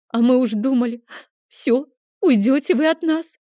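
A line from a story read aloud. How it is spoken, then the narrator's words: Sobbing. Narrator (Russian): всхлипнула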